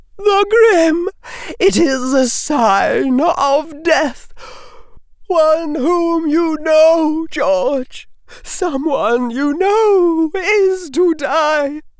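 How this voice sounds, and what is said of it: Quavering voice as Professor Trelawney. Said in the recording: “Professor Trelawney said in a quavering voice”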